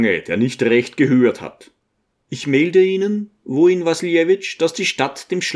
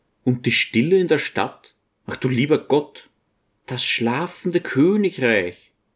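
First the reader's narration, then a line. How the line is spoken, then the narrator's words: Quiet figure speaking. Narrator (German): spricht leise die Gestalt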